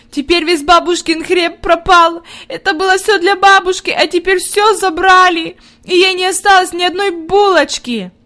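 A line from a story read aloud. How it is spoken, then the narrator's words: Inconsolable sobbing. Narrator (Russian): Она рыдала так, что казалось, нет ей никакого утешения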